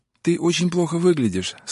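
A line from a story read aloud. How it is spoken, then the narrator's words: Sad. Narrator (Russian): сказала грустно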